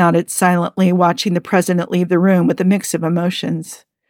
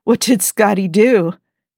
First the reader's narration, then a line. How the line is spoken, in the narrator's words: Jim asked between laughs, barely able to contain himself